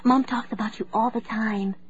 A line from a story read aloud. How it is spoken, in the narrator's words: she whispered